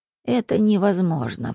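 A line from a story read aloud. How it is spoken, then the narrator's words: Sigh. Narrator (Russian): вздохнул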